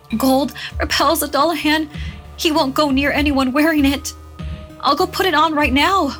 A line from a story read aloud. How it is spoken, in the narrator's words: Myra cried